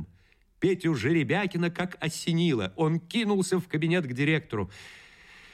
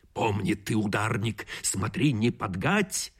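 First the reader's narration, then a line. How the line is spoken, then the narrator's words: Whisper. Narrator (Russian): в львиное ухо шептал директор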